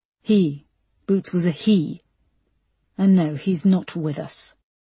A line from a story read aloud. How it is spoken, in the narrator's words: said Linda